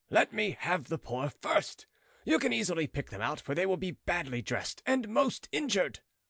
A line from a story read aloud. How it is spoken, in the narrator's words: he kept on shouting